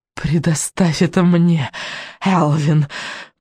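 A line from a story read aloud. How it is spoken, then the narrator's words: Hissing witch. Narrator (Russian): прошипела ведьма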